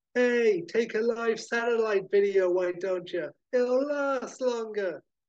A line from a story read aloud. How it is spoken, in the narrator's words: shouting at the top of her voice to the circling media helicopters